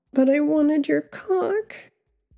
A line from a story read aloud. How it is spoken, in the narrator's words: I whimpered, not even having the energy to roll over